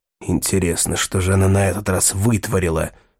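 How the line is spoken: Whispered reply. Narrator (Russian): прошептал в ответ Рэндом

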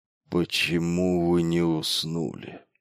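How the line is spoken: Grumbled. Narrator (Russian): проворчал он

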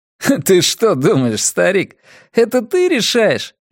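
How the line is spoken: Laughing boy. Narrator (Russian): рассмеялся мальчик

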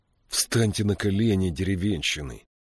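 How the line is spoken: Hissing. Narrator (Russian): прошипел один из матросов

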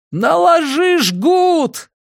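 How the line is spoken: Shouted. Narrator (Russian): крикнул я

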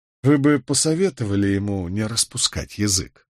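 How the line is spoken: Dry, terse. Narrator (Russian): сухо проронил Воувелл

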